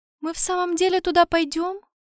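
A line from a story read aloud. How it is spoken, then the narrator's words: Timid question. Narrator (Russian): робко спросила Аурелиэль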